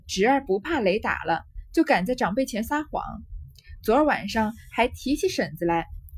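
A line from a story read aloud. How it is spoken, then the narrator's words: Laughing. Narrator (Chinese): 贾云笑道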